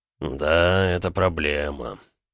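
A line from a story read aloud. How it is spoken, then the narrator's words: Calm drawl. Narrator (Russian): протянул невозмутимо Эд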